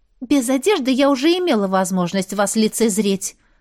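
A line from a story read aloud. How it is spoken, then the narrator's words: Embarrassed snap. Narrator (Russian): огрызнулась я все же краснее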